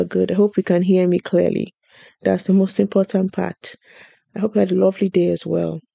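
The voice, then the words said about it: Shaky voice, sounds like a cold. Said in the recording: “my voice is a bit shaky today. I think I have a cold”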